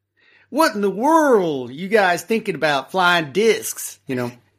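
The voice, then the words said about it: Put-on Texas accent. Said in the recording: “I spent some weeks training my voice, my accent to being really from Texas. And that was actually pretty hard.”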